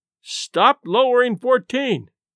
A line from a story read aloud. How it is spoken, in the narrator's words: So we shouted up